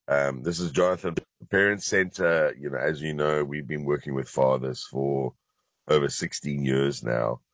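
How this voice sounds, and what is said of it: Very low voice, sounds congested. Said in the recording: “I've got a bit of a cold, so my voice is very, very, very low.”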